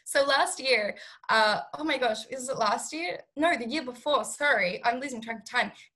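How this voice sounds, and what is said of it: Hoarse, fading voice. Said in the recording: “I know I'm losing my voice ... Why am I losing my voice all of a sudden?”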